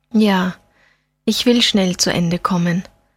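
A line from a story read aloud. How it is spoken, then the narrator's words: Sad. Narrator (German): sagte Fabeck traurig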